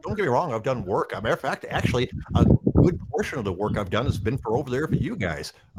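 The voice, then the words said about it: Heavy American Midwestern accent. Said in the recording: “I have a pretty heavy Midwestern accent.”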